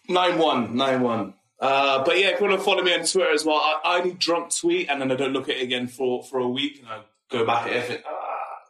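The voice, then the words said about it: Speaks with a regional accent. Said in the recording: “even though he pronounces he pronounced himself Theo, but it's actually T with a T ... That's my accent.”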